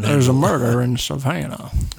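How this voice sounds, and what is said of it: Put-on Southern drawl. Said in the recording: “You were sounding like you was from a Florida panhandle ... your tongue gets stuck up in molasses ... You sound like that Looney Tune chicken”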